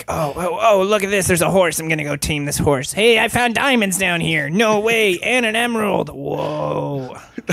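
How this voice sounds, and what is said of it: Minecraft kid character voice. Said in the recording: “is that how Minecraft kids sound? ... That's a new voice. I like that voice. That's Minecraft kid.”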